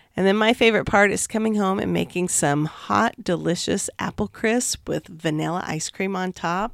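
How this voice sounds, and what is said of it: Raspy, hoarse voice. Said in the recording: “enduring my raspy throat. Hopefully I'll be all better by next week.”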